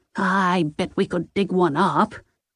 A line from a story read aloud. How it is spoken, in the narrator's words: Ida replied